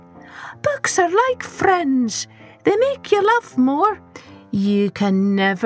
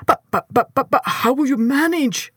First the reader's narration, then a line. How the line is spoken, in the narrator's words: sputtered Mr